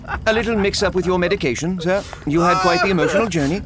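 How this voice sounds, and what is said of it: Speaks with a foreign accent. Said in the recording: “that wonderful accent”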